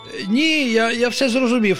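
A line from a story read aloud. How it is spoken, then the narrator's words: Joyful exclamation. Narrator (Ukrainian): радісно вигукнув пустомелик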